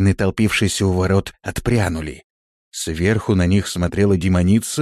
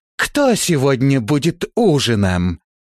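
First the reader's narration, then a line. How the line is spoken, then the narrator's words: Laughing shout. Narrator (Russian): смеясь, крикнула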